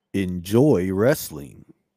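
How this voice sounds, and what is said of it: Booming announcer-style broadcaster voice. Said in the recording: “in your special broadcaster voice ... Oh, hear the pipes on that one.”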